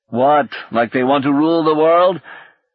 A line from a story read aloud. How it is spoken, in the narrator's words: Singh laughed harshly